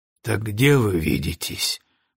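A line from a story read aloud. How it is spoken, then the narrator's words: Sighing. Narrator (Russian): вздохнул Броуди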